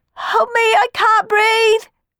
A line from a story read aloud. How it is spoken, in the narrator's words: wailed Sammy from up the chimney